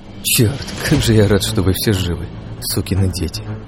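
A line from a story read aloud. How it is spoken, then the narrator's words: Quiet, tearful. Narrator (Russian): тихо произнес я, украдкой стерев щеки слезу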